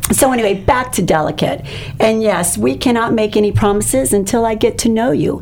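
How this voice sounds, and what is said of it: Slightly hoarse, losing voice. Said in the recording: “I don't know why I lose my voice. Do you hear it? ... Just a little bit. It's allergies.”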